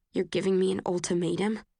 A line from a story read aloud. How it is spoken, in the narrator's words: I try to keep my voice low so the others can't hear